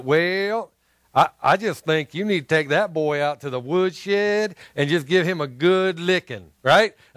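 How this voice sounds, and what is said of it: Poor put-on Southern accent. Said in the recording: “bad Southern accent. Was that a bad one? ... I cannot even do a good job to reenact the Southern accent.”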